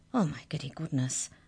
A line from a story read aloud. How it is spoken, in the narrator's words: whispered Arthur